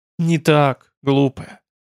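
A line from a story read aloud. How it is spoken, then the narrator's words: Gentle, almost human voice. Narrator (Russian): как-то даже ласково произнес уже почти человеческий голос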